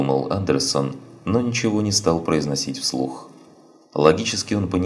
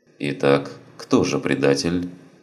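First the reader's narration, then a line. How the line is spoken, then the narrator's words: Pointedly even voice. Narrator (Russian): спросил он подчеркнуто ровным голосом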